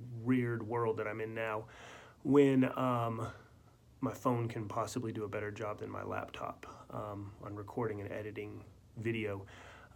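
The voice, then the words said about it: Sick-sounding voice. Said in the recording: “You may be able to tell from my voice... I'm not feeling well. I've got the flu.”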